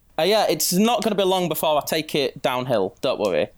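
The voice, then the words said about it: Classy-sounding accent. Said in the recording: “he's got a better accent than anyone you know, probably ... You're really classing up the joint”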